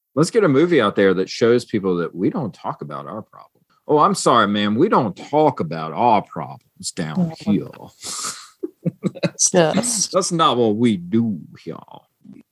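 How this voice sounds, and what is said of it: Exaggerated put-on Southern accent. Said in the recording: “that was a little bit Foghorn Leghorn ... I was going for Nick Nolte's accent in this movie, where he tries to go in and out of a Southern accent and fails miserably”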